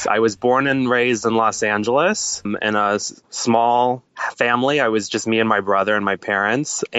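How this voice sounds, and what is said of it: American accent. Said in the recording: “my very American accent”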